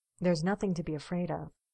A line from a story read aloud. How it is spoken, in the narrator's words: Steve says quietly